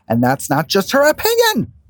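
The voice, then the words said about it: Bad Tamra Judge impression. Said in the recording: “bad Tamra impression”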